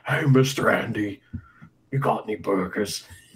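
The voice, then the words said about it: Imitates another person's voice. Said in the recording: “That sounded like Ian doing Makabe right there. ... I'm doing an impression of Jason Statham.”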